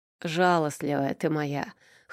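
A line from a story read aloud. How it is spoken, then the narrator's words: Amused snort, boss. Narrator (Russian): хмыкнул босс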